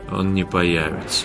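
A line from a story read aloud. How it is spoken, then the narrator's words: Tired. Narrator (Russian): устало сказал Вятислав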